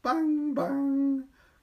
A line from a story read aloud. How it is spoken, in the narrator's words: cried the boy